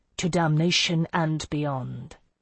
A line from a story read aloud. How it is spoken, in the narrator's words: he said softly